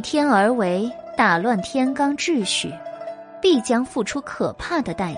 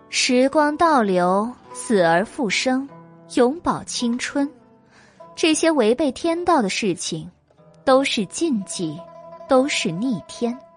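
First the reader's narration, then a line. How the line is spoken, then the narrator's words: Cool and indifferent. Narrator (Chinese): 白姬淡淡的说道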